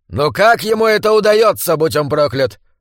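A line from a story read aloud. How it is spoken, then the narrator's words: Shout. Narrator (Russian): выкрикнул король Фридрих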